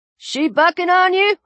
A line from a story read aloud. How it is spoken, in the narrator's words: the old man shouted